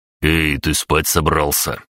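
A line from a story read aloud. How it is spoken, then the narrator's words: Through gritted teeth. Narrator (Russian): процедил мускулистый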